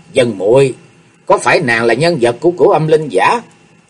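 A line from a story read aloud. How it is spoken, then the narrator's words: Anguished shout. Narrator (Vietnamese): Thế Hùng vặn lòng thét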